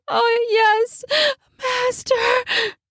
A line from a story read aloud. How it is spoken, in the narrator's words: Zathia panted